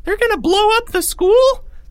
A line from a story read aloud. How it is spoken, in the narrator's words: squealed a voice at the back of the group